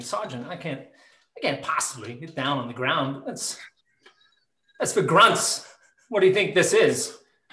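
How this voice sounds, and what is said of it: Christopher Walken impression. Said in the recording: “do the safety brief in Christopher Walken's voice ... ask Christopher Walken ... I could do this voice”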